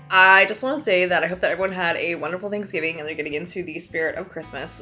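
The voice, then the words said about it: Sick, congested voice. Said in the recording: “as I'm sure you can tell, I am sick ... my voice is not where it needs to be, and I am all sorts of congested”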